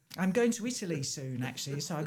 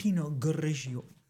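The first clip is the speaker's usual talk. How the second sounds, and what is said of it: Put-on Italian accent. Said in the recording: “I've got to practice my Italian accent.”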